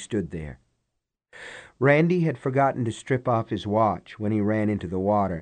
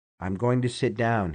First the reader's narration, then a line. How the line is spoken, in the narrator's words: he said